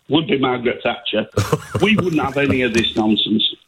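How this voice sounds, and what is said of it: Yorkshire accent. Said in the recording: “I'm from Yorkshire, you can probably tell with my accent.”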